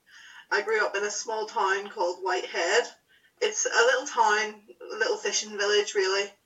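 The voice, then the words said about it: Northern Irish accent. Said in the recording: “From my accent, you'll probably be able to tell that I'm from Northern Ireland.”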